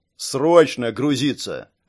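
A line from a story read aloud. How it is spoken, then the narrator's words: Mage's bark. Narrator (Russian): рявкнул маг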